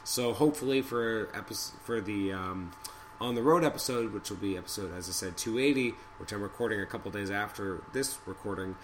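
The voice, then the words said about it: Hoarse, strained voice. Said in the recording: “I've been losing my voice ... putting up with my voice”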